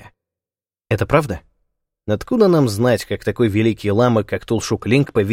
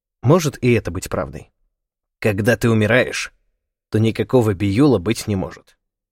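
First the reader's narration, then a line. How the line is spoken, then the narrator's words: Curt, clipped. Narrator (Russian): отрывисто произнес Лама Чингчуп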